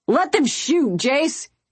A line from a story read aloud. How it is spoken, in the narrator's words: Titus yelled